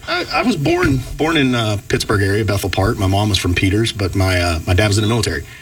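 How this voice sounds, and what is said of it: Southern Georgia accent. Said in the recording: “the Georgia accent there”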